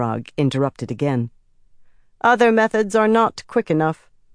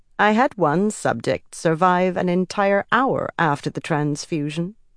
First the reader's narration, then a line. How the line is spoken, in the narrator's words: Semirag said in a calm, conversational tone